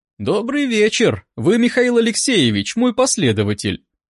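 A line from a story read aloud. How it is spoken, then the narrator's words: Cheerful question. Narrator (Russian): бодро спросила она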